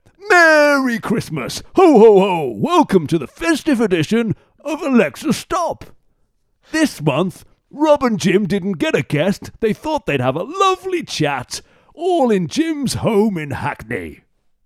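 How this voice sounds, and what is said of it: Santa Claus character voice. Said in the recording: “That's a great Santa. ... doing that Santa impression”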